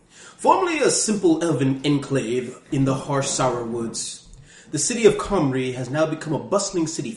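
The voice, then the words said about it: Silly put-on British accent. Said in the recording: “I'm going to use a silly voice ... I'm using a British accent”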